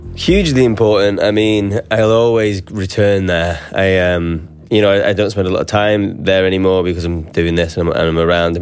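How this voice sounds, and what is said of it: Northern English regional accent. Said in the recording (Dutch): “Zijn dialect valt meteen op ... I'm very proud of like having a regional accent and also not like a London accent ... You don't hear a lot of Northern English accents”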